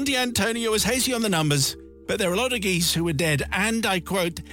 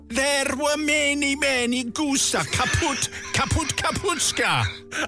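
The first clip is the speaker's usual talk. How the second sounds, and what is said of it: Put-on Belarusian-style accent. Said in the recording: “Where were they from? ... Belarus. It's from Belarus. ... I thought it was Italy. ... Saying the accent is similar to Belarusian doesn't really help very much.”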